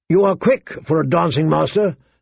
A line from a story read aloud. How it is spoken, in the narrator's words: said Sir Merrin